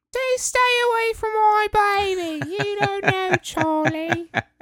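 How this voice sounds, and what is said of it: Impression of Emily de Ravin. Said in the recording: “You even did your impression. ... Your impression of Emily.”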